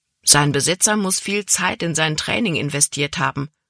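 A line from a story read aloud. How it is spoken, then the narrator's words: Plain. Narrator (German): sagte Caleb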